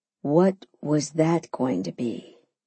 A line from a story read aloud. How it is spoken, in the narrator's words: he asked calmly